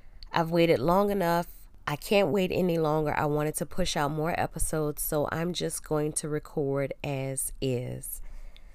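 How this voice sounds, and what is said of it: Congested, nasal voice. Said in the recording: “My voice is a little off because I am getting over a cold, so you hear a little bit of congestion. I may sound nasally.”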